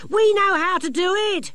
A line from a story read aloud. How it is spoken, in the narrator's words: shouted one of the younger gnomes